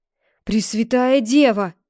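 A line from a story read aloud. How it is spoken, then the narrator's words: Exclamation. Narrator (Russian): воскликнул мясник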